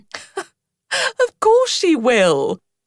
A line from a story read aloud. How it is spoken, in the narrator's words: chuckled Otter